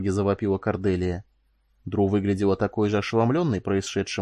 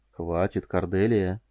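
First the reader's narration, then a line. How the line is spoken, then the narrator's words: Quiet interjection. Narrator (Russian): тихо вмешался Фаркосиган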